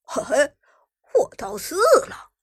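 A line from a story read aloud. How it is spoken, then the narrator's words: Low chuckle. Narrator (Chinese): 旺财忽然低声笑道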